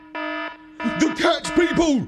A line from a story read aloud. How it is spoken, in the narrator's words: I barked